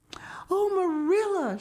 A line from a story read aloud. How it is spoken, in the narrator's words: she exclaimed breathlessly